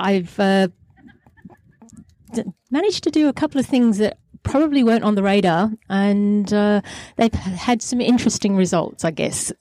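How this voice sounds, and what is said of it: Lancashire English accent. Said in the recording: “there's a hint of an accent there ... as you can hear by the accent, I'm a Lancashire lass.”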